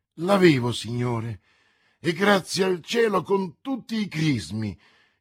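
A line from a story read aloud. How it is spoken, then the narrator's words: Exclaimed. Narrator (Italian): esclamò D'Artagnan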